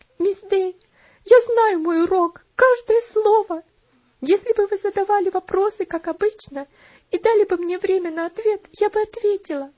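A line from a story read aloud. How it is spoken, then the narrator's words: Sobbing. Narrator (Russian): Бедная Элси больше выдержать не могла, разрыдавшись, сказала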